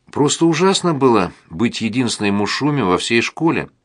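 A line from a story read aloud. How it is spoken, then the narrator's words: Plain. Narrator (Russian): говорит она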